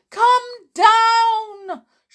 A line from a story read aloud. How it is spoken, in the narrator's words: shouted the porter